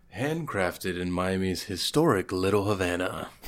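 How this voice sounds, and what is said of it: Seductive, sultry voice. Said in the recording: “the sex operator voice ... It's very seductive.”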